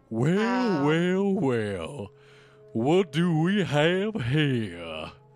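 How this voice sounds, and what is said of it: Imitates a cartoon villain's voice. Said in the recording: “I'm guessing it's Oogie. ... that's a very good impression if it is.”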